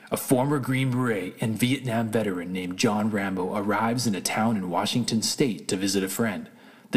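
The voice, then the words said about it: Dramatic movie trailer narrator voice. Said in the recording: “I'll try to do my best movie trailer voice.”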